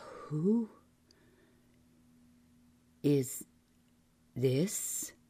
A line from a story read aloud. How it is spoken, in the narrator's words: He said so slowly, the words did not connect coherently